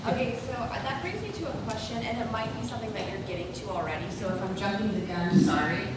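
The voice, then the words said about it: Very loud speaking voice. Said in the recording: “My voice is really loud. I think.”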